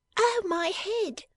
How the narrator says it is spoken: cried the doll's dressmaker

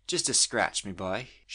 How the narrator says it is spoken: she said in a motherly tone

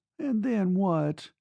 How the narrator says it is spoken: she demanded wearily

